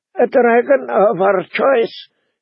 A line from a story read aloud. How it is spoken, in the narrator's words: he said in a thin, hard voice